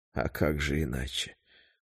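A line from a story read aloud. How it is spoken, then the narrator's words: Tired smiling reply. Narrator (Russian): устало улыбнулся в ответ Патрик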